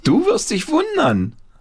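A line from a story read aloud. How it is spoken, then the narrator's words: Called out. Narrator (German): rief Paul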